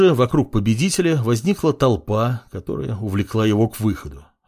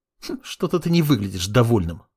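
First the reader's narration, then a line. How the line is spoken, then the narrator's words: Snort. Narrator (Russian): фыркнула Левитание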